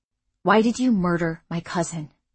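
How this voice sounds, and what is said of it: Terse, clipped voice. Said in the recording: “he asked in a terse voice”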